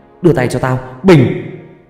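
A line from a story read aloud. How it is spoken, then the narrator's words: Yelling. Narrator (Vietnamese): miệng gào lên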